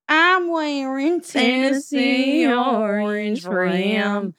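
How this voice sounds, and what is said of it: Exaggerated country accent. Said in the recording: “over accentuating ... the country accent”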